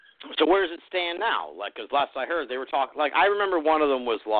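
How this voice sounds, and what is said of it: Usual voice. Nothing is said of it.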